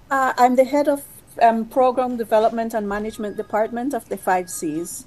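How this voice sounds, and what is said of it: Belizean accent. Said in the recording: “I'm trying to read that accent. ... Belize.”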